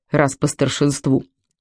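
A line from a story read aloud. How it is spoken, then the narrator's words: Reluctant grumble. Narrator (Russian): нехотя проворчал Мишка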